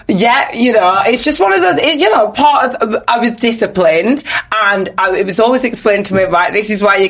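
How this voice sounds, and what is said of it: Nigerian accent. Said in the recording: “People probably heard from your accent you were Nigerian anyway.”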